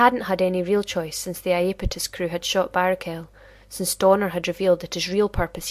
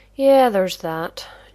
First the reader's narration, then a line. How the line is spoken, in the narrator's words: John agreed wearily